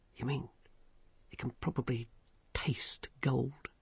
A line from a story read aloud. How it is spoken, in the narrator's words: whispered Vimes